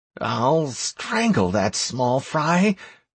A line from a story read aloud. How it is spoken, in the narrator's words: muttered Anastaria